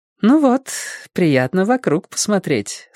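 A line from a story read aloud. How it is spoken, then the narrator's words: Smiling coo. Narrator (Russian): с улыбкой проворковала Эллен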